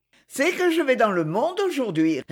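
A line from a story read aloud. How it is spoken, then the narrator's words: Laughing reply. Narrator (French): répondit Marie en riant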